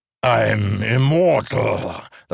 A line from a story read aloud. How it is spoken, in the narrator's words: the pursuer growled, but his rhythm had changed, not so confident